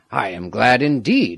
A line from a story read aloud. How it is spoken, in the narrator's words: he exclaimed